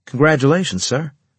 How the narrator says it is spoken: I said quickly

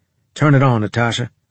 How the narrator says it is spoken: I said

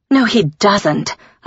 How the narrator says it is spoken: I spat

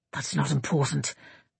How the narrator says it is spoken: Eivind muttered

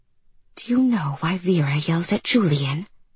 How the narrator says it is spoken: she whispered

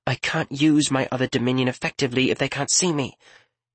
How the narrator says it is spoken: Riala responded patiently

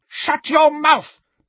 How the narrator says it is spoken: Bellatrix shrieked

